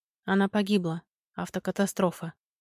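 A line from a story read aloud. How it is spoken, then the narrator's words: Quiet but stunning. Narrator (Russian): произнёс тихо, но словно гром ударил в ясном небе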